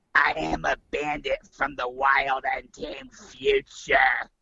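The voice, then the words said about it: Imitates another person's voice. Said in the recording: “do I have to do it in her voice? ... do the voice”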